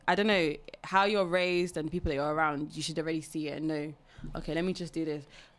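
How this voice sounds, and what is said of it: UK accent. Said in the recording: “she's spazzing in the UK accent”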